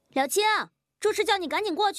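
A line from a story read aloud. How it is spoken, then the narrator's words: Shout from outside. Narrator (Chinese): 外面忽然传来了喊声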